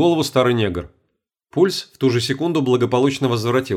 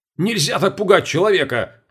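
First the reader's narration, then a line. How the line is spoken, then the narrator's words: Indignant yell. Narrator (Russian): Возмущенно заорал на него Сергей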